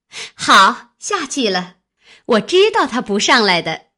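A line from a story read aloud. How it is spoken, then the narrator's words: Laughing. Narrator (Chinese): 一个笑道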